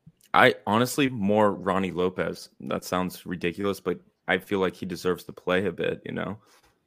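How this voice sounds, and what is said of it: Hoarse voice from a cold. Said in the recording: “my voice is going a bit gone, still going over this cold, so I may be coughing a bit”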